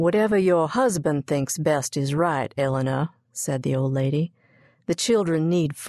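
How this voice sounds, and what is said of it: Usual voice. Nothing is said of it.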